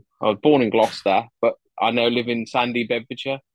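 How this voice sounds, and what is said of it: Wolverhampton accent. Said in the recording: “My accent's from Wolverhampton.”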